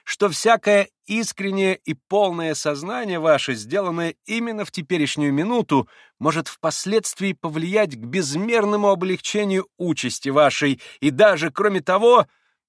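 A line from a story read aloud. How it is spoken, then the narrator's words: Tender, joyful little voice. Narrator (Russian): каким-то умиленно-радостным голоском подхватил Николай Парфенович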